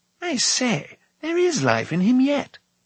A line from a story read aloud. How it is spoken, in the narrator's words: exclaimed Fluda